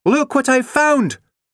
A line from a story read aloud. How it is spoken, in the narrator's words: shouted Kirsty